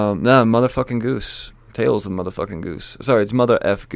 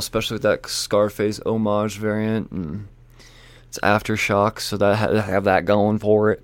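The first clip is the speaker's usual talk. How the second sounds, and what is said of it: Weird unexplained put-on accent. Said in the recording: “this weird fucking accent came from out of my mouth”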